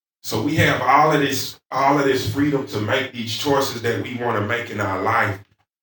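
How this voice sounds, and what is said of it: Southern American accent. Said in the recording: “I'm pronouncing it with my southern accent”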